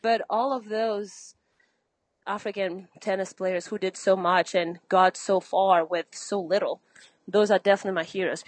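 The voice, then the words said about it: Breathless, out-of-breath speech. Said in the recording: “I'm a little out of breath.”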